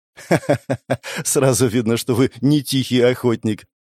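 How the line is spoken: Young woman laughing. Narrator (Russian): рассмеялась в ответ девушка

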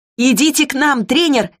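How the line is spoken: Shout. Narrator (Russian): крикнула я

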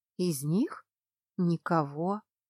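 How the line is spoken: Uncertain, resigned. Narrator (Russian): Неуверенно выдала она, обреченно опустив плечи

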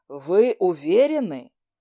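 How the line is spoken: Hoarse, agitated doubt. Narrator (Russian): хрипло от волнения усомнился Ушан

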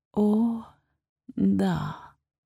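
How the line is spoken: Drawled. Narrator (Russian): протянула я

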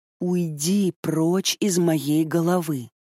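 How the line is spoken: Strained through teeth. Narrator (Russian): Выдавливаю сквозь зубы

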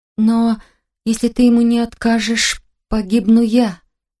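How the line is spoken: Trembling voice. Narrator (Russian): дрожащим голосом озвучила я

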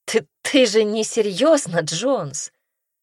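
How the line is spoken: Astonished exclamation. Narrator (Russian): Воскликнула она вне себя от удивления

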